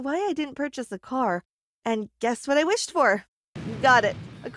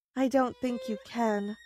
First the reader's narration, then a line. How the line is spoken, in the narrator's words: I said sadly